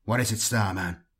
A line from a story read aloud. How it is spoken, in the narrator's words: Jaren asked